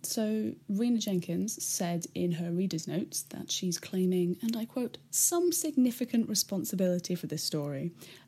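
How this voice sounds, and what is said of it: Raspy voice. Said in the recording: “I'm currently really, just really hungover. So sorry if my voice is a bit raspy”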